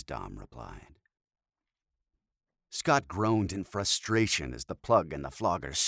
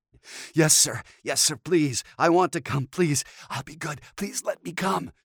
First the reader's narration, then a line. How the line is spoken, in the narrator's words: Scott panted